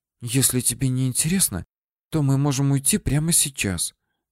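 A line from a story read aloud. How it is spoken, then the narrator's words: Hurt whisper. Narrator (Russian): обиженно прошептала Алина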